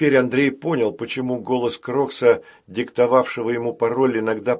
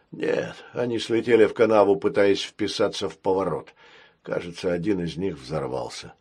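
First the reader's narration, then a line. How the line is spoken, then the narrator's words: Calm. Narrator (Russian): спокойно ответил пират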